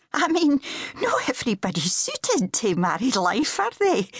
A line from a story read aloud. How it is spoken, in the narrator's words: she had laughed a little too shrilly, in embarrassment